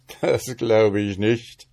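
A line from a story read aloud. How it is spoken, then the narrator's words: Troll's certain, maliciously chuckling voice. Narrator (German): sagte der Troll, und er war seiner Sache ganz sicher und lachte und gluckste vor Vergnügen ganz bösartig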